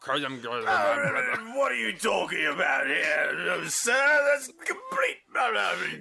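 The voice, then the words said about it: Old British man voice. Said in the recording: “that thing you do when you do old British man impersonations ... This voice is very British. It's a British voice.”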